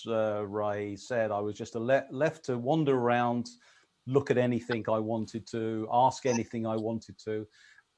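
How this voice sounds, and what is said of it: English accent, soothing calm voice. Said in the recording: “you've got this strange accent ... It's the English accent, I guess ... the soothing, calming voice”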